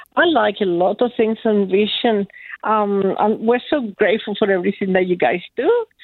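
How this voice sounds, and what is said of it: Slight South American accent. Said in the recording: “you've got a slight accent there, and we're picking up the fact that you were some South American direction here ... it's only a slight accent”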